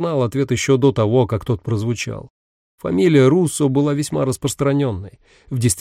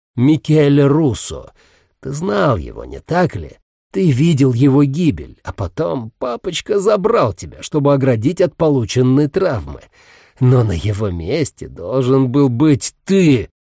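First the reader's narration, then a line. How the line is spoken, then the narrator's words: Furious hiss. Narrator (Russian): Последние слова он яростно прошипел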